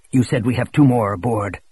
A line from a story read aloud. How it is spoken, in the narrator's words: Showalter said sharply